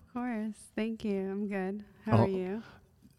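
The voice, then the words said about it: Soft, gentle speaking voice. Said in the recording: “that soft voice”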